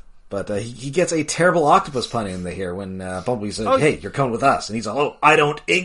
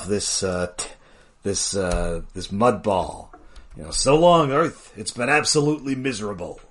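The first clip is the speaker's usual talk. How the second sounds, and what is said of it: Put-on Italian or New York accent. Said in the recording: “Now you're switching it into an Italian accent, which works better ... It's New York. It's a New York accent.”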